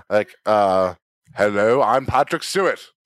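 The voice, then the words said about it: Weak Patrick Stewart impression. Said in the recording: “do a Patrick Stewart voice ... I can't do Patrick Stewart ... Oh, never mind.”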